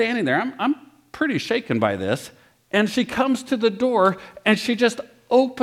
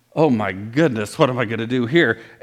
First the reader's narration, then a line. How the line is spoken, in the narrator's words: I'm thinking